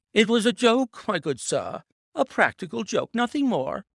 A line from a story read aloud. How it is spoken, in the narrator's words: he whined incessantly